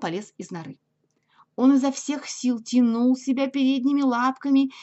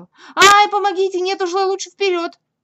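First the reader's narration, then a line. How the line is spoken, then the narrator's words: Desperate yelling. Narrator (Russian): он завопил отчаянным голосом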